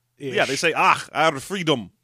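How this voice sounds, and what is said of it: Clumsy, unidentifiable put-on accent. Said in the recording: “I don't know what that accent was... I'm never doing an accent again... I keep trying to do accents, and I can't”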